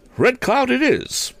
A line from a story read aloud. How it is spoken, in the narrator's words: cried Tom enthusiastically